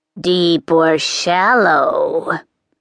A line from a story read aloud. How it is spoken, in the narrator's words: the witch croaked